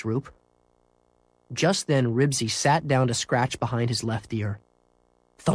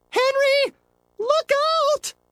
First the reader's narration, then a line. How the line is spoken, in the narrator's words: screamed Miss Roop